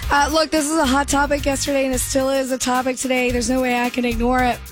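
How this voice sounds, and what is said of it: Strained, fading voice. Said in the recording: “I am losing my voice,”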